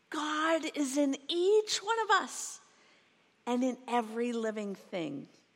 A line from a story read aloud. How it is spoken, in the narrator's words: I shouted at the top of my voice